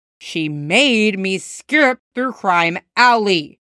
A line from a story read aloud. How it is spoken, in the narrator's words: Jason growls